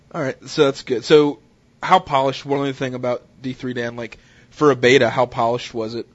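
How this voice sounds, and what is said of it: Stuffy, congested voice. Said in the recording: “I have this cold, so that's why I sound like a real douchebag right now.”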